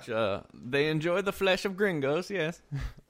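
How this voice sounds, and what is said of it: German officer accent impression. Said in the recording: “That's my impression of a German officer who ... It was a German officer who escaped to Buenos Aires.”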